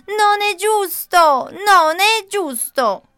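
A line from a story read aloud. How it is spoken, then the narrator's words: Startled waking shout. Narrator (Italian): Simone si sveglia, tutto sudato, e urla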